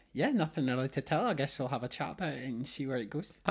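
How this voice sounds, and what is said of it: Scottish accent. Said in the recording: “do I detect a bit of an accent ... I'm from Scotland ... More specifically, Edinburgh.”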